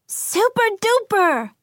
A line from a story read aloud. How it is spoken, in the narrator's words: Athena cried out